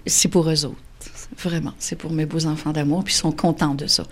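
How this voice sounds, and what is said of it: Gaspé regional Québécois French accent. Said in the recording (French): “ils ont des racines gaspésiennes aussi ... C'est notre accent, là, c'est le drapeau qu'on a dans notre gorge”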